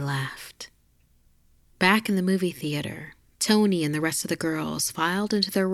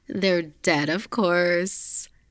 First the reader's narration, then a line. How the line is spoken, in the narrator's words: Tony laughed